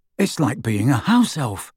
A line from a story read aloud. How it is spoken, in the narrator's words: complained Ron in an undertone